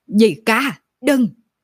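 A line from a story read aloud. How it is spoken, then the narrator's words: Frantic scream. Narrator (Vietnamese): Âm Vô Pháp điên cuồng gào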